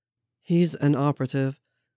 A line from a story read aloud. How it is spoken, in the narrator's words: Steve said flatly